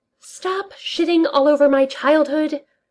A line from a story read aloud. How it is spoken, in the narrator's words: Darcy hisses